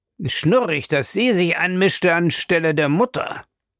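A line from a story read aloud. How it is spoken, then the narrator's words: Bad-tempered growl. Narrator (German): knurrte Captain Charles übellaunig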